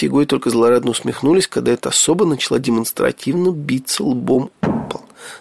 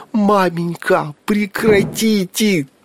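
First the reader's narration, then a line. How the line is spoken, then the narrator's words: Mournful wail. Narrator (Russian): тоскливо взвыл престижный Митька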